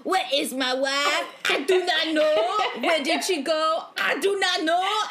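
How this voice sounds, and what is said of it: Horrible put-on French accent. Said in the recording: “in a horrible French accent”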